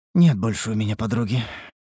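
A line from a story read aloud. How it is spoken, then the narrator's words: Sigh. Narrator (Russian): вздохнула Лейтарис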